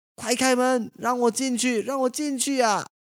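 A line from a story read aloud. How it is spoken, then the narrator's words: Shouting repeatedly. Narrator (Chinese): 他在外面不停地喊着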